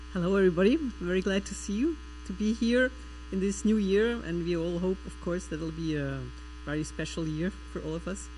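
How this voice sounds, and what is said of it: Slight foreign accent, fluent English. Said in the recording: “she speaks English with a slight accent, she does. She speaks it well, but she's originally from Switzerland.”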